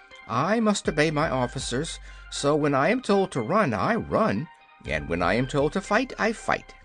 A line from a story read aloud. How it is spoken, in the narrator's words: said the private, meekly